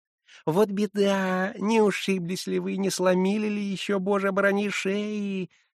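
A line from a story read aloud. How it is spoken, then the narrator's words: Caring babbling. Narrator (Russian): лепетала заботливая Хивря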